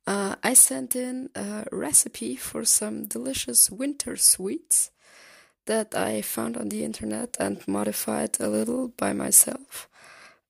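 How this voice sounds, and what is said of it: Slightly off, sick-sounding voice. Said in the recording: “I'm currently recovering from being sick, so if my voice sounds a little off, that's the reason.”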